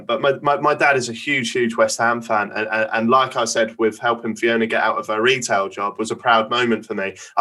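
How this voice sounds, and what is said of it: Norfolk English accent. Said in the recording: “As you can tell by my Norfolk accent.”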